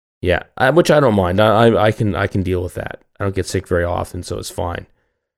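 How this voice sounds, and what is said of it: Raspy, gravelly voice from a cold. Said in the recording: “how cool my voice sounds ... A little Harvey Fierstein today ... A little bit of a cold”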